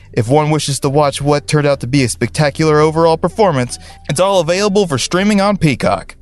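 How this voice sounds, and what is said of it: Southern American accent, excited. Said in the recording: “he sounded pretty excited about that. How about that Southern accent?”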